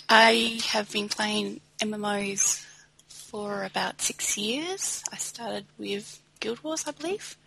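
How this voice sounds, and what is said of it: Australian accent. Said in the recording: “I'm from Australia, so you have to excuse the accent.”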